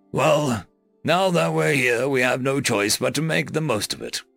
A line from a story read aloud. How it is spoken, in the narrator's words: Gary said gruffly